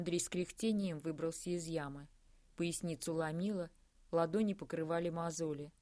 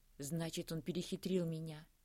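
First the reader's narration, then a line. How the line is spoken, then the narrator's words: Quiet near-whisper. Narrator (Russian): проговорила Кристина тихо, почти шепотом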